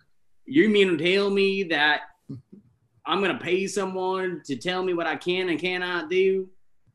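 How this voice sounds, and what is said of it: Weak Matthew McConaughey drawl impression. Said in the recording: “I am the low budget Matthew McConaughey ... Do that accent again ... What's the accent? ... That one's like a D.”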